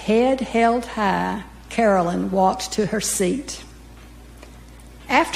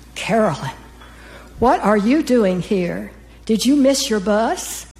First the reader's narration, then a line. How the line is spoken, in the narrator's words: gasped